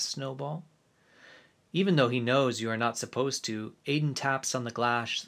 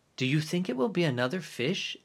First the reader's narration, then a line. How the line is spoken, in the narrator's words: Aiden asks